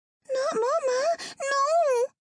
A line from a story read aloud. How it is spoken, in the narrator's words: Ava whined